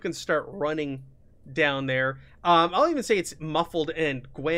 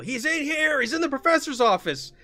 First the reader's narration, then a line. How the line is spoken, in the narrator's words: you hear yell